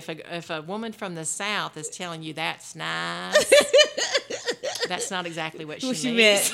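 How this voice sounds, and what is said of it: Southern American accent. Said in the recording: “Southern ... have that, girl. You do have that. ... that little Southern accent”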